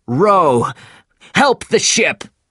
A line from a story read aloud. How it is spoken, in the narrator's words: shouted Captain Ahab